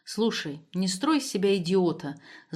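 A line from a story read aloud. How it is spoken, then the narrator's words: Angry. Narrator (Russian): зло добавила она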